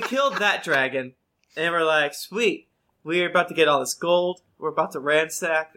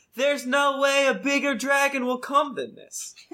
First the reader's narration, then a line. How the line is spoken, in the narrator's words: we all yelled in unison